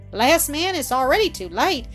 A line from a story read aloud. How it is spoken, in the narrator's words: sighed the minister